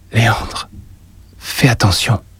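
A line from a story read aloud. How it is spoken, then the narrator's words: Murmuring. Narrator (French): murmura-t-elle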